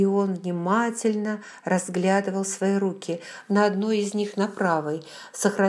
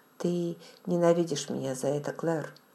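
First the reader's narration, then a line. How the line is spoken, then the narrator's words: Barely audible question. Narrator (Russian): спросил он тихо, чуть слышным голосом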